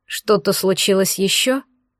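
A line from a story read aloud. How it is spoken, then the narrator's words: Tired question. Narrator (Russian): устало спросил Кирилл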